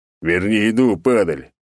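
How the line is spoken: Big man's roar. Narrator (Russian): взревел здоровяк

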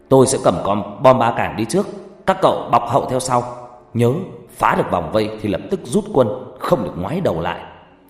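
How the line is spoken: Firm frowning shout. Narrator (Vietnamese): Tiểu đội trưởng cau mày kiên định rồi hét lên

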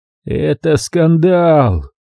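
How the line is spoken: Groaned. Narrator (Russian): Простонал он совсем по-граждански

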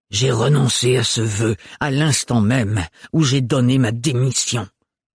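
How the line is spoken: Hissed through teeth. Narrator (French): siffla-t-il entre ses dents

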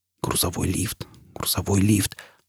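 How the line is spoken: Feverish muttering. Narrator (Russian): лихорадочно бормотал Фойл

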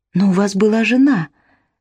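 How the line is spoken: Soft. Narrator (Russian): мягко сказала Изабелла

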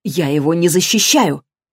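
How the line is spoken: Sharp raised voice. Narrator (Russian): Кендра ответила резко, повысив голос

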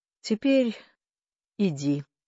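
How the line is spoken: Tired, yawning. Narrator (Russian): устало сказал Кордовин и протяжно зевнул

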